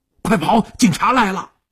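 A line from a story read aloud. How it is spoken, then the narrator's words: Shouting while running. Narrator (Chinese): 一边喊一边飞快地窜向了后巷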